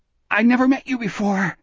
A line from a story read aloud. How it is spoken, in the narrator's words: Jack gasped